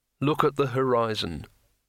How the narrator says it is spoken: said Rincewind in a monotone

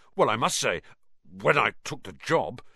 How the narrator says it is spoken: Lockhart muttered

